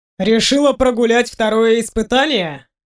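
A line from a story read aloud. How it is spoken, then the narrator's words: Chuckling. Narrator (Russian): хохотнул Норрисдон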